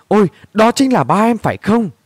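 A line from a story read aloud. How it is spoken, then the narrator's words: Hurried exclamation. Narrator (Vietnamese): Luyến vội kêu lên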